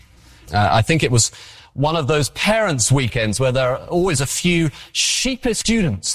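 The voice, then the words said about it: English accent. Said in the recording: “how much they like my accent ... he has an English accent”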